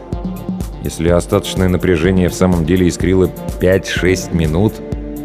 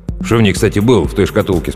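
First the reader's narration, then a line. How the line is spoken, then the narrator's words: Plain. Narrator (Russian): спросил прапорщик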